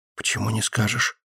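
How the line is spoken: Whispered question. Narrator (Russian): шепотом спрашивает Динка

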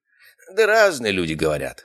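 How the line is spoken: Snorting. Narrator (Russian): хмыкнул Гартман

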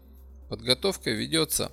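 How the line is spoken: Calm reply. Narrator (Russian): спокойно ответил инженер

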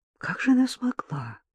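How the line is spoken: Quiet question. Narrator (Russian): негромко спросила Ирина

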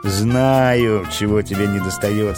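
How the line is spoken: Laughing. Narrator (Russian): смеялась Элли

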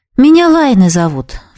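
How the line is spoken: Sighing reply. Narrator (Russian): вздохнула в ответ

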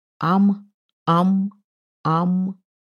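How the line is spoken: Deep, mocking, menacing echo. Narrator (Russian): Густым голосом, словно бы даже с усмешкой, ответило эхо, как будто грозило проглотить

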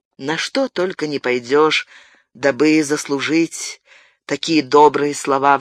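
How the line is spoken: Sighing. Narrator (Russian): вздохнул Габриэль

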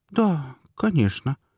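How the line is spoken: Uncertain girl's voice. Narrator (Russian): ответила девочка как-то неуверенно

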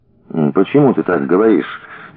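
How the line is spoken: Uncertain. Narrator (Russian): неуверенно произнес Трепанов

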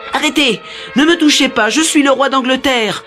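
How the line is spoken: Shouting at top of lungs. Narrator (French): criait Edward à tue-tête

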